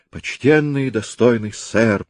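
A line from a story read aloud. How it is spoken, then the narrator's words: Moaning. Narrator (Russian): простонал Домини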